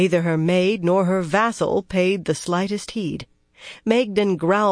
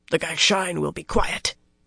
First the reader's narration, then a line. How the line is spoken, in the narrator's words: Rolan grunted